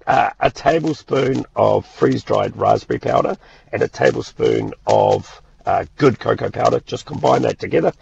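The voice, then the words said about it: Hoarse, strained voice. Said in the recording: “I lost my voice yesterday, I was shouting too much.”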